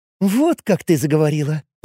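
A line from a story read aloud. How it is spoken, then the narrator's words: Provocative giggling. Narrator (Russian): провокационно хихикая произнесла Кари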